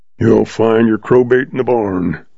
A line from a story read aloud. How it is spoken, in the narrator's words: grumbled old Moss